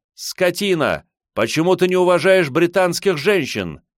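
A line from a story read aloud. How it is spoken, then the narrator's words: Shouted. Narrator (Russian): она крикнула Черчиллю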